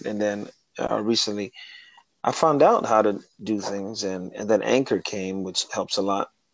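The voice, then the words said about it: Smooth radio-style voice. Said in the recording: “you have a really nice radio voice”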